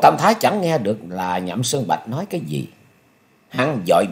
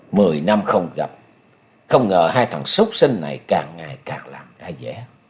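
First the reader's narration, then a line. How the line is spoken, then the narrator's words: Cold muttering. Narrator (Vietnamese): Song mục của Nhậm Sơn Bạch phát ra những tia hàn quang lạnh lùng, chàng lẩm bẩm nói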